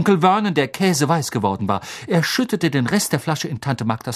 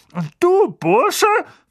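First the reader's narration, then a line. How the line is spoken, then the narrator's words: Angry hiss. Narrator (German): fauchte er Harry an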